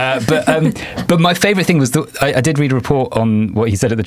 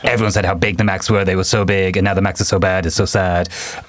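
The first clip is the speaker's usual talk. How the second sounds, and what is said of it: Imitates another person's voice. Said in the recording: “I'll never be doing that accent again”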